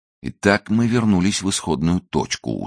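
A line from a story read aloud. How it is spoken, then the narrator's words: Weary, detached summary. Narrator (Russian): устало и отрешенно подытожил Беглер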